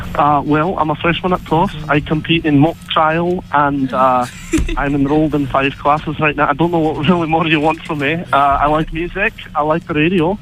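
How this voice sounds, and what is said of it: Aberdeen Scottish accent. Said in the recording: “accent is killing it ... I was born in Aberdeen.”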